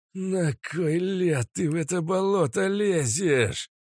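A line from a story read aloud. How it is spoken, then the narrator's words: Hiss. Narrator (Russian): прошипел старший Хадок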